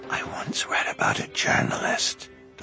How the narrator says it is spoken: Duncan whispered

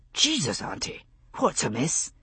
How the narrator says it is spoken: He spoke quietly, not to draw attention

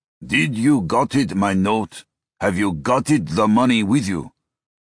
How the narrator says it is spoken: he asked in a thick accent

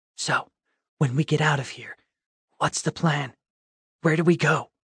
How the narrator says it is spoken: she whispered

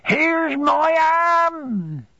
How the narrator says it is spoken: screamed Peggotty

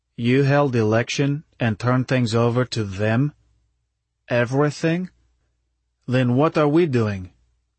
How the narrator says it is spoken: I said slowly

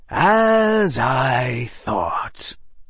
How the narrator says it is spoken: the defense professor sighed

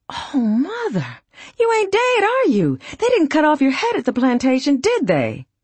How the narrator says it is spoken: he exclaimed

